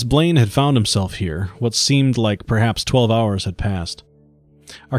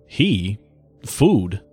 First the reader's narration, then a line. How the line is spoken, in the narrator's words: stammered